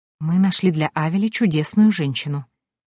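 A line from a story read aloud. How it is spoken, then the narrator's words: Quiet, leaning close. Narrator (Russian): тихо заговорила она, наклонившись ко мне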